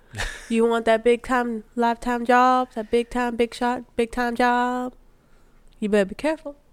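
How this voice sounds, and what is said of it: Put-on Southern US accent. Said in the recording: “the southern accent?”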